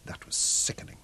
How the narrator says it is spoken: whispered Robin

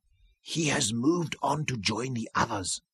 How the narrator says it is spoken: Yan Shirut whispered at last

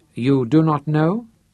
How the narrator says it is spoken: he asked

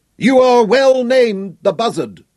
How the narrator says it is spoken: Sir Francis roared in frustration

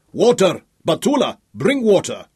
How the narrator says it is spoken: Al-Malik shouted

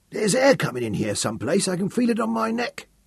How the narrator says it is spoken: Ed Broom murmured

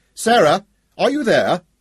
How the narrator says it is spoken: he called out sharply

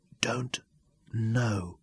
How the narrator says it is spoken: answered as softly

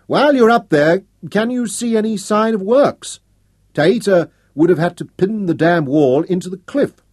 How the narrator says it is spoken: She cupped her hands around her mouth to shout up to him

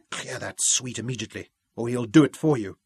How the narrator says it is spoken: he hissed

